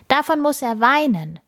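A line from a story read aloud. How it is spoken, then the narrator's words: Boy calling out. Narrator (German): ruft ein Junge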